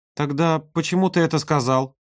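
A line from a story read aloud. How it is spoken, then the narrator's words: Thin trembling voice. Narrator (Russian): спросила она тонким, дрожащим голосом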